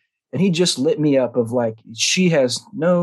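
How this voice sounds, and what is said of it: Usual voice. Nothing is said of it.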